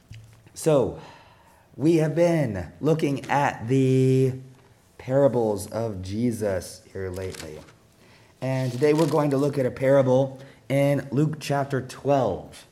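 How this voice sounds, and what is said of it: Altered, allergy-affected voice. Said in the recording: “you might be wondering about my voice ... got a little colder, and so it does this to my voice, my allergies all the time”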